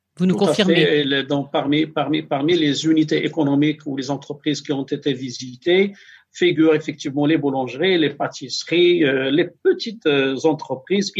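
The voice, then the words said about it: Moroccan-accented French. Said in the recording (French): “cet accent marocain, c'est sympa”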